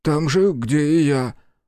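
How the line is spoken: Gloomy man, sobbing. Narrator (Russian): уныло отозвался мужчина и всхлипнул

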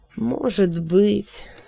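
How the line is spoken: Mutter. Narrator (Russian): пробормотал Алькасар

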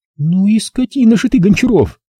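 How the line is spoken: Sighing. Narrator (Russian): вздохнула она

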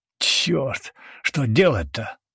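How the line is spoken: Bewildered gritted mutter. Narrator (Russian): процедил растерянно Ратбор

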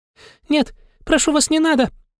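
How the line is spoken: Bird's timid babbling. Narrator (Russian): Залепетала птица

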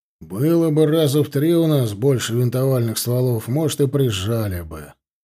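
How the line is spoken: Grumbling commander. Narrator (Russian): проворчал командир эскадрона

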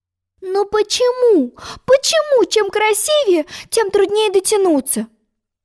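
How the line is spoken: Frustrated exclamation. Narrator (Russian): С досадой воскликнула Алиса, отчаявшись сорвать все-все речные лилии

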